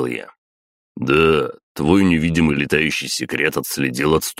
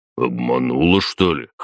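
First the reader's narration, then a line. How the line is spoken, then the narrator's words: Skeptical snort. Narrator (Russian): хмыкнул Батуми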